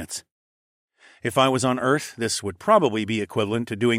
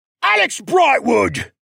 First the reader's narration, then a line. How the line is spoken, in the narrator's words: the man shouted in a rage